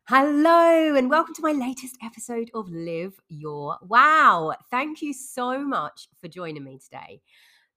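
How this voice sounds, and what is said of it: Congested voice with a cold. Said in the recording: “you might hear it in my voice. I am full of cold recently ... I have had this awful cold cough for coming up to nearly 2 weeks now”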